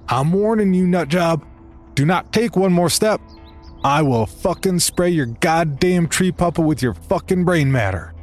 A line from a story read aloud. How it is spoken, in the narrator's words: I yelled